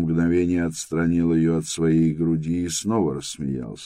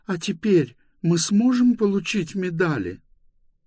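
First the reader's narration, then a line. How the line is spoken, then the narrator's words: Tearful speech. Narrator (Russian): проговорила она сквозь слезы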